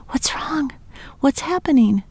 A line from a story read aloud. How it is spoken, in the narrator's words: She sobbed